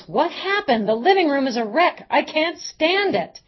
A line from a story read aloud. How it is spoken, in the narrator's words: Maria yells